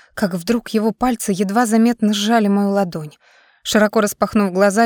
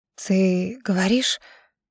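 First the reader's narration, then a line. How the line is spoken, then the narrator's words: Tearful whisper. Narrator (Russian): прошептала я, внезапно почувствовав в своих глазах слезы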